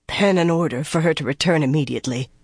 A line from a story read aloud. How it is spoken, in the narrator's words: Elida said hoarsely